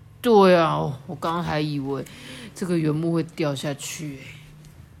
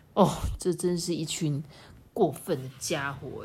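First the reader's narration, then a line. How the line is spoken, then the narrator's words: Sighing together. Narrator (Chinese): 他们一起叹了一口气，说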